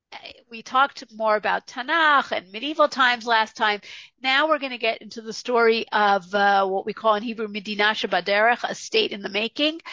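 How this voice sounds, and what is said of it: Rough, sick-sounding voice. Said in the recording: “apologize for my voice. I've had a terrible cold all week.”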